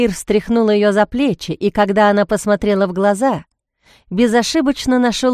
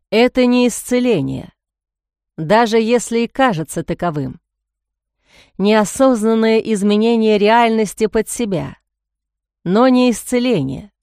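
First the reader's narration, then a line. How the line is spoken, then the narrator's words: Calm. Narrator (Russian): спокойно заговорил он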